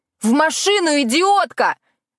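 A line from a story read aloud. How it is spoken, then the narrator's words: Yelled. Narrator (Russian): заорала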